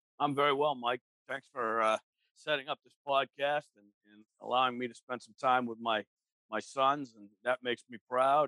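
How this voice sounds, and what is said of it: North Carolina Southern US accent. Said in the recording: “Your accent's going to sound a lot different than ours, obviously being from North Carolina.”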